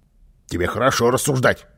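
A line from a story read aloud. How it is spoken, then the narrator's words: Angry grumble. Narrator (Russian): сердито пробурчал Карлсон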